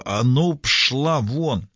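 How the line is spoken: Hissing. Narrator (Russian): зашипела

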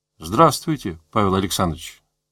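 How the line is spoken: Plain. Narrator (Russian): сказал директор

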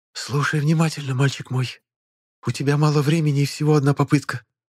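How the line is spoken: Close hot whisper, nonhuman. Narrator (Russian): прошептала нелюдь, обжигая кожу горячим дыханием

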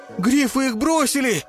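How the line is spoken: Terrified yell. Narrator (Russian): в ужасе завопил Тиг

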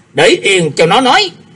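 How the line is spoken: Harsh, grunting. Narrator (Vietnamese): Dân Hư hừ một tiếng gằn giọng nói

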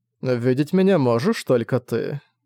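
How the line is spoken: Calm old man. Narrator (Russian): спокойно заметил старик

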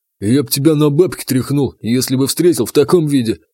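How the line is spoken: Scoffing grunt. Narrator (Russian): хмыкнул Рябой

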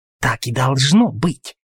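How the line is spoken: Hissing. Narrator (Russian): прошипел Дьюк

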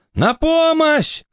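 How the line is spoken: Shouting while struggling. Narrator (Russian): кричал он, дергая за веревки

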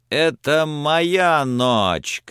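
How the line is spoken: Shouting. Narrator (Russian): кричал он

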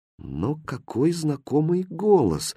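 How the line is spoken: Thoughtful. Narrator (Russian): задумчиво произнес Хрустальт

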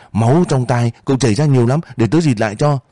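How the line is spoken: Exclaiming. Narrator (Vietnamese): Anh kia nhìn rồi kêu lên

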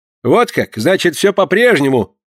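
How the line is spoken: Angry. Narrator (Russian): сердито проговорил Порпора

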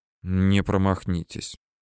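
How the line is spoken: Quiet speech. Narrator (Russian): говорит негромко

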